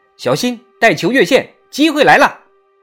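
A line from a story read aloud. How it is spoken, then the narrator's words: Shouting. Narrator (Chinese): 保罗嚷着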